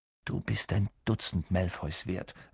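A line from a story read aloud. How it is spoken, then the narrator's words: Plain. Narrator (German): sagte Harry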